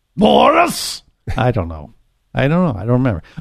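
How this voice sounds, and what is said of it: Natasha impression, Russian-accented voice. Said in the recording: “That was your Natasha impression.”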